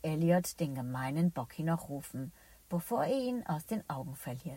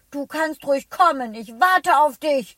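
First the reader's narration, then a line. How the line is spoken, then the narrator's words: Angry shout. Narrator (German): schreit Elliot wütend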